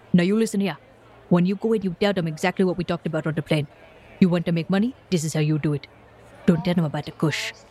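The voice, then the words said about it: Heavy African accent. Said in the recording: “he's speaking with a heavy African accent.”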